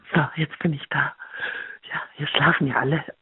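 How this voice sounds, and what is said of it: Whispering. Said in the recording (German): “flüstert ... wenn jemand flüstert, muss ich auch flüstern”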